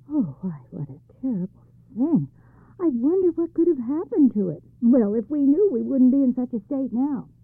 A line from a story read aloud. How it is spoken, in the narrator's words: The youth suppressed his laughter and said